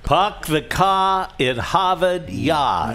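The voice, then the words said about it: Put-on Boston accent. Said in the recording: “imitating the accent we are now told is, believe it or not, considered to be one of the sexiest in America ... That is the Boston or New England accent.”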